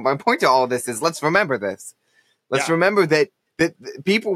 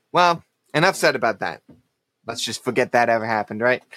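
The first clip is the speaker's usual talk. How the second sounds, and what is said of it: Sarcastic tone. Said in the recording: “being sarcastic”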